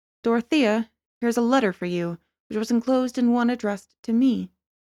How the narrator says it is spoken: he said, in that distant tone which implied that he was discharging a disagreeable duty

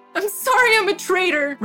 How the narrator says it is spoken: Rowan said, sobbing

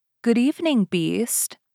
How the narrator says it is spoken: Beauty answered sweetly

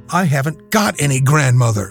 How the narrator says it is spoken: said she

